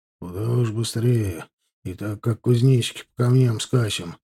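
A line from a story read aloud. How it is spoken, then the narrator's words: Muttered grumbling. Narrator (Russian): ворчал себе под нос Герасим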